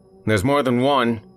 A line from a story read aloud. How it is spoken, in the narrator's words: he yelled